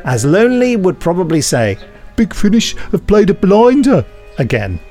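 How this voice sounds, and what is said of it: Put-on Brummie accent. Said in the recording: “I kind of did Frank Skinner's Brummy accent there”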